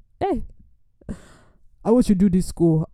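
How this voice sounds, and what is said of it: Weak imitation of South African man. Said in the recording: “his voice sounded deeper than that and was more suave ... he's a South African, so his accent was not even close”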